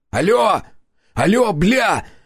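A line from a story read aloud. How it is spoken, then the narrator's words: Shouting into microphone. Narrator (Russian): закричал я в микрофон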